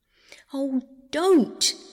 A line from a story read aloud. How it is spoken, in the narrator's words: cried Roberta